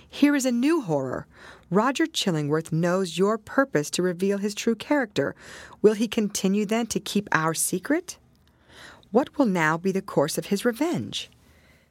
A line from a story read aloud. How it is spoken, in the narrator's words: cried he